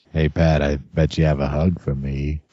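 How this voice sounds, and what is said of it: Put-on Boston accent. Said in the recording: “That sounded like the rock monster from Neverending Story ... He's still got the Boston accent ... Why am I still doing the Boston thing?”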